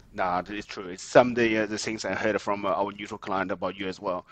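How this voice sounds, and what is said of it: Non-native English accent. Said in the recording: “you probably can hear from my accent. I'm a migrant. ... it's hard to get rid of an accent.”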